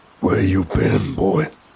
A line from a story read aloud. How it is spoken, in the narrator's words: father asked in a gruff tone